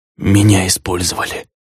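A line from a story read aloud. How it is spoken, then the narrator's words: Judge's whisper. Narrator (Russian): шепот судьи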